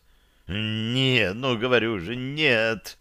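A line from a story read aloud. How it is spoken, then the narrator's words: Groaning. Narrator (Russian): Простонал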